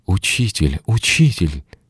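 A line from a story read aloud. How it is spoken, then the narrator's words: Helpless desperate exclamation. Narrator (Russian): В беспомощности и отчаянии они воскликнули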